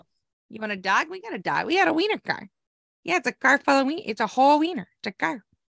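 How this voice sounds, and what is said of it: Exaggerated Chicago accent. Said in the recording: “you had a killer Chicago accent. It's one of the best.”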